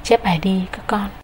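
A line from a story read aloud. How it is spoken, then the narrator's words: Teacher's gentle instruction. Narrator (Vietnamese): Thầy khẽ gật đầu và bảo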